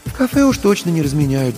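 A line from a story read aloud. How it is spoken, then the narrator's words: Sigh. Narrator (Russian): вздохнула Марина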